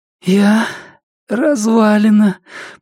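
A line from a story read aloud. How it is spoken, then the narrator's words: Hoarse wheeze. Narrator (Russian): прохрипела она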